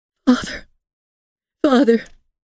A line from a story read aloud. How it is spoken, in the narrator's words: she cried